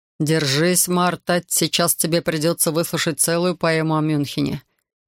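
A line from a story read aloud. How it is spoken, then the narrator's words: Mocking interjection. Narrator (Russian): насмешливо вставил Рихард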